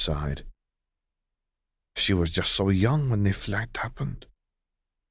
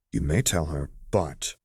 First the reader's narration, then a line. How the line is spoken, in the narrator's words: he added sharply